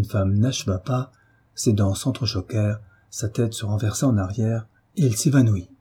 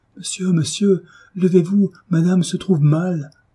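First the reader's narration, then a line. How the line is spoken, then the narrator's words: Servant crying out. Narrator (French): la servante s'écria en s'agenouillant auprès du lit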